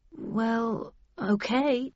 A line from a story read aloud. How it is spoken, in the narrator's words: I muttered